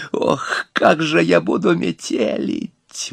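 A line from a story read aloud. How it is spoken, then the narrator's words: Exclaimed again. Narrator (Russian): воскликнул опять урка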